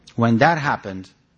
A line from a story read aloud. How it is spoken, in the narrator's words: Nana said